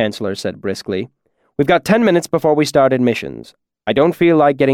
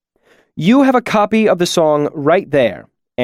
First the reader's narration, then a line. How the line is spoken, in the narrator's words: Ambrose said hotly